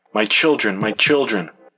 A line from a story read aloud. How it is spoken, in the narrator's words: One woman, continually moaning and crying